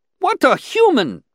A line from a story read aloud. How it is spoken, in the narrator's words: exclaimed another, interrupting